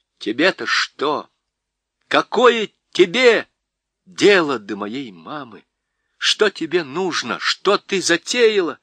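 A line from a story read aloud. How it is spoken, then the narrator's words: Loud, clear despite distress. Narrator (Russian): Как ни худо было Дигори, он сказал громко и четко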